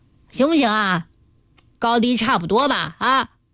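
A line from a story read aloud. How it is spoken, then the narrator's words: Loud question. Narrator (Chinese): 高声大嗓地问细妹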